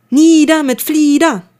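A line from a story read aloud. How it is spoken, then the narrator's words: Loud bellowing chorus. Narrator (German): brüllte ein türkisfarbener Rabenschwarm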